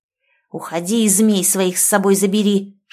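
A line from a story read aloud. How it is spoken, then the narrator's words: Hissing voices. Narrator (Russian): шипели они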